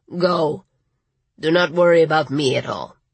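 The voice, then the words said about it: Gravelly voice, slight Latin accent. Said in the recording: “in his gravelly voice with a hint of a Latin accent.”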